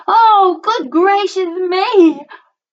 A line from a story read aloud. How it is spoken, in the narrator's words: exclaimed